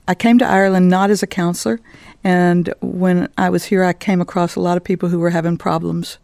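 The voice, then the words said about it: Texas American accent. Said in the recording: “I'm originally from Dallas, Texas, which everybody always hears in my accent. But I've been in Ireland for 31 years. And so everybody says I haven't lost my accent”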